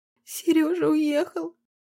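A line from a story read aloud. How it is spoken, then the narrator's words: Sobbing. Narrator (Russian): всхлипнула она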